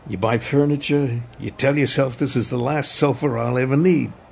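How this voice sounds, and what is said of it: Exaggerated American accent. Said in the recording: “hit us with your dirtiest American accent”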